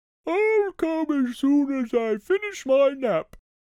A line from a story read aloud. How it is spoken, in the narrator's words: he said sleepily